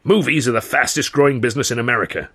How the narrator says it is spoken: he shouted

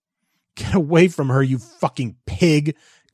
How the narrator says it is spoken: Christopher sobbed

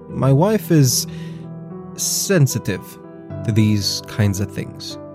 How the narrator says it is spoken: he says

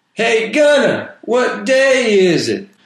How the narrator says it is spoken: One of the other prisoners yelled at him

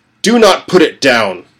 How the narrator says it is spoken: Father shouted

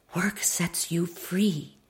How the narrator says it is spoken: my mother whispered

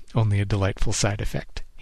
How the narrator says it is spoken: he chuckled

